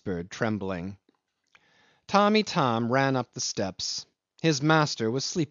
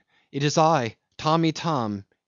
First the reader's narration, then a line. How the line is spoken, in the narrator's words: he cried at the door